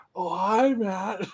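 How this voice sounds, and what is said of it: The Room movie voice impression. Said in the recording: “She does her best room voice.”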